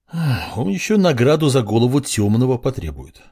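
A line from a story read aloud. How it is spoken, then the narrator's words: Sigh. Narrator (Russian): вздохнул глава отделения ордена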